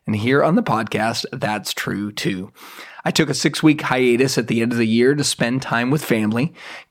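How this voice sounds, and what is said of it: Rough, hoarse voice. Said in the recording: “My voice may sound a little bit rough today”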